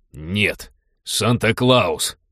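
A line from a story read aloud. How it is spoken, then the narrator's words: Snapped. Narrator (Russian): огрызнулся приятель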